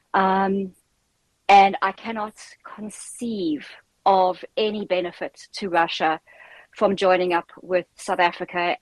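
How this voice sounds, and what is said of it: South African accent. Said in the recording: “as you can tell from my accent, I am South African”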